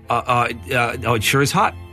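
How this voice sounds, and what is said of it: Put-on American accent. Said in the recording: “speaking an American accent”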